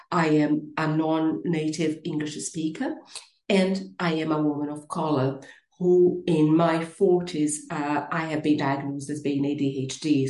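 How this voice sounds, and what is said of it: Brazilian Portuguese accent in English. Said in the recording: “You will notice an accent. I am originally from Brazil”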